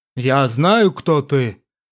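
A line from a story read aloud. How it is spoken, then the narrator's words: Old man's solemn reply. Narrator (Russian): Серьезно и торжественно ответил старец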